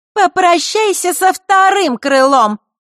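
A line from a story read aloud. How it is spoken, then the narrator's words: Snide shout. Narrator (Russian): ехидно прокричала Маришка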